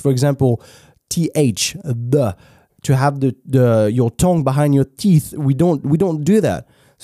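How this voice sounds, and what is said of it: Strong French accent in English. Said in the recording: “we were born french ... That's why we have such a strong French accent.”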